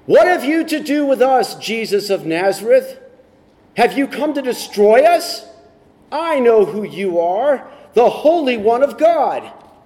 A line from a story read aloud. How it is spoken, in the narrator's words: he cried out